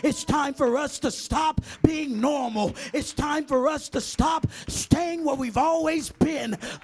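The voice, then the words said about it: Screaming preacher delivery. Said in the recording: “Why are you screaming on a Sunday afternoon?”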